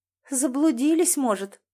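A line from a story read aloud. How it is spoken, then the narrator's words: Timid. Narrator (Russian): робко сказала продавщица Марина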